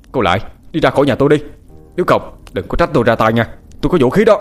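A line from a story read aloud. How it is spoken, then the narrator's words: Shouting again. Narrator (Vietnamese): Anh lại quát lên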